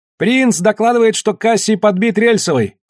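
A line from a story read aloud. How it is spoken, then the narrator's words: Shout. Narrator (Russian): крикнул Ян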